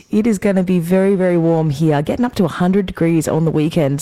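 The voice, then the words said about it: Weak, fading sick voice. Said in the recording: “my voice is disappearing. Yes, I am still a little bit sick.”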